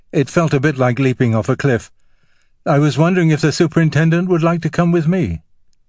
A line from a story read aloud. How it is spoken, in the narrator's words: said Beauvoir, thinking quickly